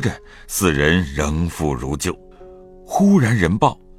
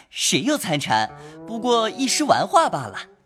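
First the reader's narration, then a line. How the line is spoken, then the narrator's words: Laughing. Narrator (Chinese): 便笑道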